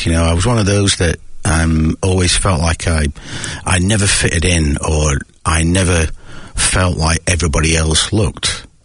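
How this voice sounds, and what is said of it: Northern English accent. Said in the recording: “you can probably tell by my accent, growing up in the north of England”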